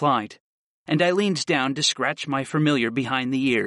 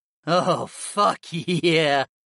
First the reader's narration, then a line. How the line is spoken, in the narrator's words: Dio purred